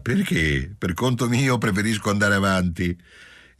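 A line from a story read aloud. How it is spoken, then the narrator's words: Mocking drunken voice. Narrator (Italian): Giulia rispose con voce canzonatoria ed ebbra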